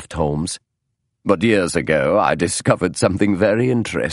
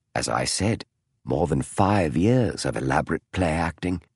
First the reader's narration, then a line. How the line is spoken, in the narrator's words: Holmes said softly